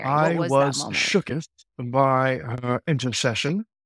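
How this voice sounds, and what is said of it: Put-on British accent. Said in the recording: “speaking Gen Z terms with like a British accent”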